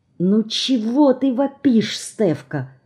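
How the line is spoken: Scolding whisper. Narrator (Russian): выговаривает ей Люся шепотом

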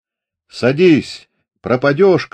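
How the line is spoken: Shout. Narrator (Russian): крикнул Фомин

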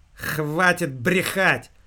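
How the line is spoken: Loud. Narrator (Russian): громко произнесла девушка

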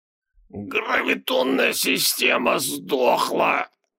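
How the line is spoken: Barely audible wheeze. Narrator (Russian): чуть слышно просипел Гангегорос

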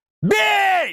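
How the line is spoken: Yelling at full force. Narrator (Russian): я заорал со всей дури

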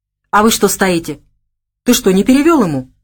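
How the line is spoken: Plain question. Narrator (Russian): спросил он Савелия

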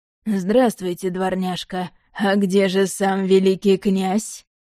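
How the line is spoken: Mocking question. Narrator (Russian): Насмешливо спросил Павел

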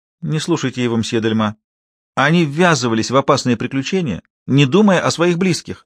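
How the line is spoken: Exclamation. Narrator (Russian): воскликнула Айрис

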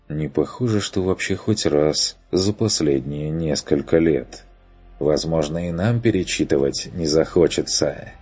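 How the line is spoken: Gloomy supposition. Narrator (Russian): предположил Бруно мрачно

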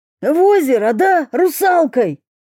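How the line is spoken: Shrill squeal. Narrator (Russian): взвизгнул Федор

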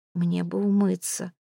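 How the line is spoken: Mutter. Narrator (Russian): пробормотала она

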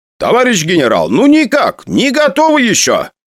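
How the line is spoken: Loud reply. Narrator (Russian): Громко отвечал Араратович

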